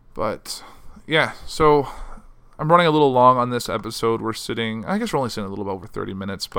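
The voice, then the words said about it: Hoarse, fading voice. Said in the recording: “I'm kind of losing my voice ... I'm losing my voice because it's just been a stressful week”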